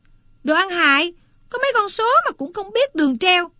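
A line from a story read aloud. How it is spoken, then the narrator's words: Sudden yell. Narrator (Vietnamese): Chợt nó la lên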